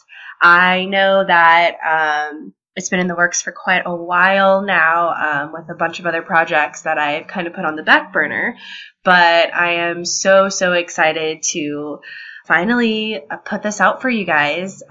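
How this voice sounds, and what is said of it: Nasal, congested sick-sounding voice. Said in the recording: “I am feeling a little bit under the weather, if you can't tell by my voice. I'm a bit nasally right now”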